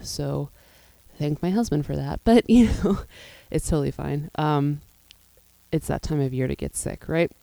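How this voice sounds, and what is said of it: Rough, unwell-sounding voice. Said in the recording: “apologize for my voice. I think you can tell it's a little bit out of whack today, just coming into a cold”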